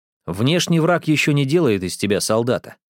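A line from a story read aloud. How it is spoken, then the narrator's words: Plain. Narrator (Russian): сказал Маньера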